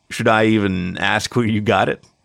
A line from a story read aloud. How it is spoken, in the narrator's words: She chuckled